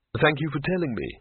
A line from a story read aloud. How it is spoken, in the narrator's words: said Rincewind, weakly